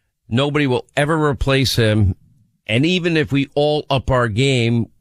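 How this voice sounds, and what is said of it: Usual voice. Nothing is said of it.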